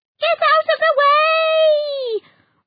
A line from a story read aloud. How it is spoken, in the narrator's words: Roz yelled